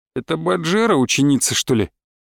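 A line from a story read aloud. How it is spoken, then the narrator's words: Man's mutter. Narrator (Russian): пробормотал мужчина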